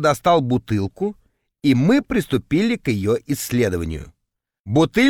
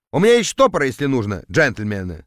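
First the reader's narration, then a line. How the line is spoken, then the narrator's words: Plain. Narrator (Russian): сказал он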